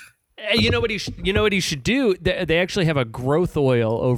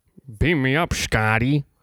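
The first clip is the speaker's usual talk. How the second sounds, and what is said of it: Patrick Stewart impression. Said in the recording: “my Patrick Stewart impression”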